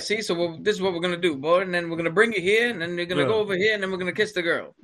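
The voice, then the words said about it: Old-Hollywood Mid-Atlantic accent. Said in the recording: “a lot of the actors had that. What do they call it? The Mid-Atlantic accent.”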